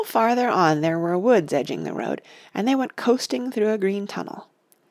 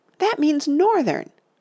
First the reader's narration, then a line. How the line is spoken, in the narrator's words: Oliver cried